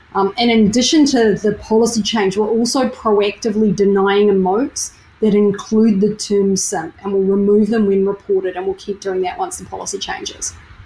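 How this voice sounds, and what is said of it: Australian accent. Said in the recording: “Love that Aussie accent.”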